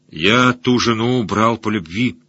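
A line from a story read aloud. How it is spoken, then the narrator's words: Through gritted teeth. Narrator (Russian): сквозь зубы выговорил варяг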